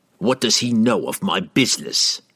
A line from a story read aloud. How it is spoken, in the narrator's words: Entreri snapped, angered that someone had dared to spy on him